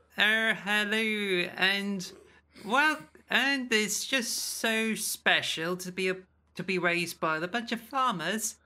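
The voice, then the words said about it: Exaggerated Cornish accent. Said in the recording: “I do have a bit of a Cornish accent ... I can exaggerate it”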